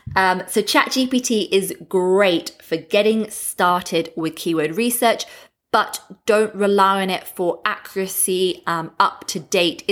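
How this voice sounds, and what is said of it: English Australian accent. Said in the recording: “my English Australian accent”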